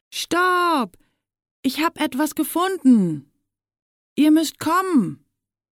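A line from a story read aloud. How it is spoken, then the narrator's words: Breathless shout. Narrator (German): ruft er außer Atem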